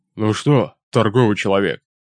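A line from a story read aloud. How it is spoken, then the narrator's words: Deep bass voice. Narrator (Russian): пробасил он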